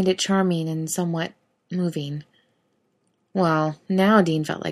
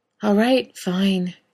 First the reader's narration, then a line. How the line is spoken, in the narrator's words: Dean sighed, long and drawn out